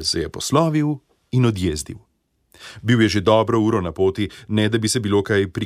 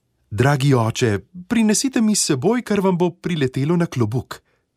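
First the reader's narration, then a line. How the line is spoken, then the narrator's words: Girl pleading. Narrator (Slovenian): Deklica poprosila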